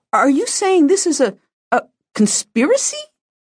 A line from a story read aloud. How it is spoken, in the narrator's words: My sister practically squeaked on the last word